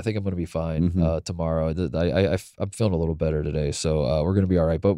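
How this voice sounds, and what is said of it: Sick, hoarse-sounding voice. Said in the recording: “As you can tell from my voice, I got a little sick.”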